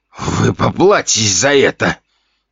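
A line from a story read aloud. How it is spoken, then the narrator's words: Attempted threat. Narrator (Russian): Пытался он угрожать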